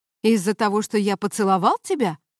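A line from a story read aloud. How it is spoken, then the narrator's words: Indignant question. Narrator (Russian): возмущенно спросил он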